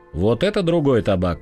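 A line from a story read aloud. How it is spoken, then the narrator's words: Quietly amused. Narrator (Russian): смеясь одними глазами, сказал капитан Янакиев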